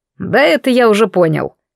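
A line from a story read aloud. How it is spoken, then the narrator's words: Meaningful snort. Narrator (Russian): как-то многозначительно хмыкнул Браун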